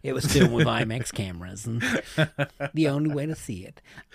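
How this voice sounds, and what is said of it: Imitates another person's voice. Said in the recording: “I'm sounding like the Michael B. Jordan advert ... That's not a good impression”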